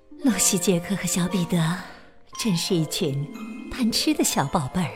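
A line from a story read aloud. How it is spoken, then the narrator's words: Muttering to herself. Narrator (Chinese): 彼得斯妈妈眉头微微皱，自言自语，小声嘀咕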